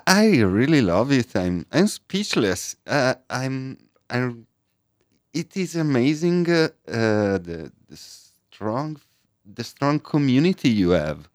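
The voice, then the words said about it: Italian accent, pleasant sounding. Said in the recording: “from Milan is here. And as you can tell, he doesn't have the Baton Rougeoisie accent, but a beautiful one.”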